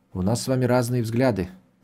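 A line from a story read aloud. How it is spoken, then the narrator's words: Quiet. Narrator (Russian): тихо ответил Родригес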